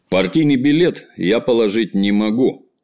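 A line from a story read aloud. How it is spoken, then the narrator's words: Calm. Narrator (Russian): сказал он спокойно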